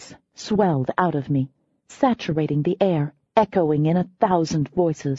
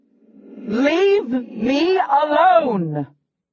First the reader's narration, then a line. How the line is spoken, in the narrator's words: I roared